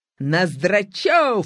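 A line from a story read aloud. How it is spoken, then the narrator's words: Stern shout. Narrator (Russian): сурово крикнул директор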